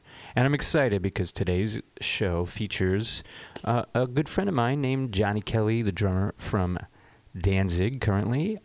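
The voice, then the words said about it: Hoarse, strained voice. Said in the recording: “nursing a tail end of a sore throat ... puts a lot of stress on this boy's voice ... I'm usually kind of shot ... if I'm a little bit hoarse”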